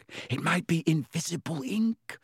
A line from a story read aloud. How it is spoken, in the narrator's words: whispered